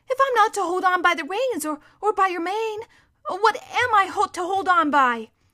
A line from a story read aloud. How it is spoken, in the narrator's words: pleaded Shasta